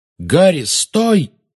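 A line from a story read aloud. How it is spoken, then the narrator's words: Exclaiming. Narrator (Russian): воскликнул Люпин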